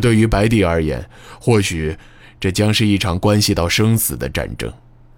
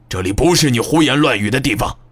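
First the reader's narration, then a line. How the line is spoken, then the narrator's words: Forceful, resonant voice. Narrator (Chinese): 木武声音却依然铿锵有力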